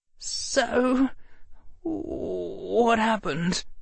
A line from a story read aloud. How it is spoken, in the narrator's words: Harry said, his voice trembling